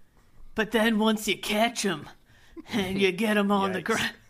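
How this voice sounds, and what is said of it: Imitates another person's voice. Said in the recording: “That's my impression of Murder Cons.”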